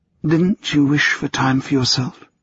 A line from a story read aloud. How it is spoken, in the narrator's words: she asked softly, so softly it was almost a whisper